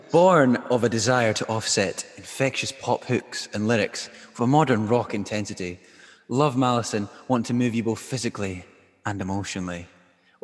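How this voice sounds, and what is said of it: Dramatic reading voice. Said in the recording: “I'll do a nice dramatic voice.”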